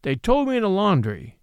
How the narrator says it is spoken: he said harshly

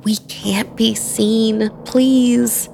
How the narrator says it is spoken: begged Aaliyah

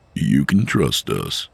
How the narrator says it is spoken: Nick said, his voice kind

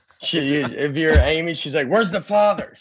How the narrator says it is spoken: She yells at him

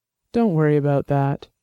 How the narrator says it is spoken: he said, keeping his voice calm and soothing

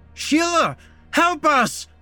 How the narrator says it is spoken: Matt screamed out as cold, disgusting water poured into his mouth

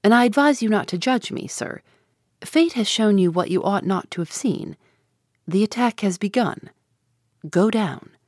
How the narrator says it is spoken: replied coldly

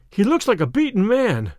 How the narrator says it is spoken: cried Phelps

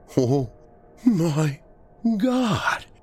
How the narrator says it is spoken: Alex wheezed

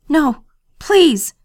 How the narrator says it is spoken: cried

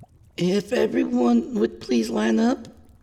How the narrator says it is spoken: called, her voice shaky

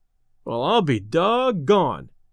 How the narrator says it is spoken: exclaimed Delaney

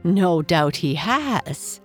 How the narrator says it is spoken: said the Lady of the Moon with a little laugh

